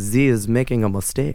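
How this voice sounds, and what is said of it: Bad put-on French accent. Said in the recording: “It just sounds like you're doing a bad French accent.”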